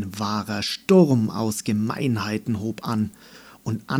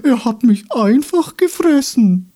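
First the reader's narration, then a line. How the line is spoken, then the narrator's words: Called in squeaky voice. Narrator (German): rief er mit piepsiger Stimme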